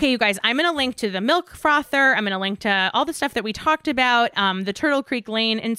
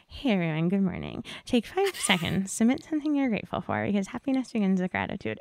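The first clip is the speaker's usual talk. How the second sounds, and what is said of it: Imitates another person's voice. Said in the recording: “how good my impression of her is”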